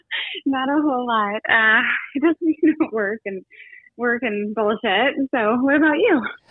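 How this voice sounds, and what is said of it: Out of breath, huffing and puffing. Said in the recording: “I'm working out, which is why I'm out of breath. ... Huffing and puffing”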